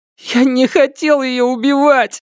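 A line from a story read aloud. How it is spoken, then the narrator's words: Sobbing. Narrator (Russian): рыдал он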